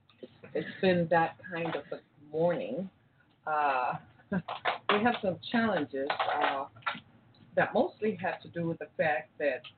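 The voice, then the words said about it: Slow, worn-out voice. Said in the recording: “my voice sounds a little slow this morning ... I've been using my voice, and I think I haven't done the greatest job of taking care of my voice this past week”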